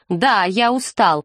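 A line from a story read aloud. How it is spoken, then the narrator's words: Snapped. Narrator (Russian): огрызнулся Фрэнк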